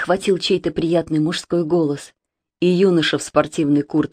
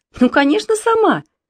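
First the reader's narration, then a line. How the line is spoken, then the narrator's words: Laughing. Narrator (Russian): засмеялась Машенька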